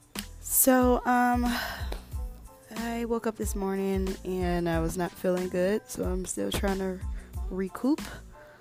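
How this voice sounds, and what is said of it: Scratchy, slightly hoarse voice. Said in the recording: “As you guys can see in my voice, um, my voice is still a little scratchy”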